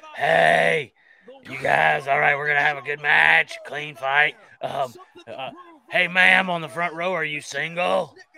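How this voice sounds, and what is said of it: Scratchy character voice. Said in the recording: “giving it a fucking scratchy voice”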